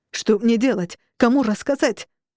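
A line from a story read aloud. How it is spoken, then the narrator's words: Ghost wailing. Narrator (Russian): вопил призрак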